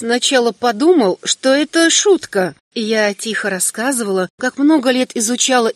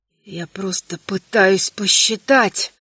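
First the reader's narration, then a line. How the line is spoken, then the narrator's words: Emperor muttering. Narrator (Russian): пробормотал император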